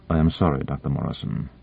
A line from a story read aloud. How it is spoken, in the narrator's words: Boronova said in a low voice